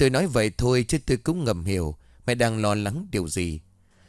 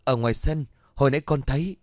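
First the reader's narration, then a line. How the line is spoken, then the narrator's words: Frightened stammering. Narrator (Vietnamese): Tôi sợ hãi lắp bắp nói mãi không thành câu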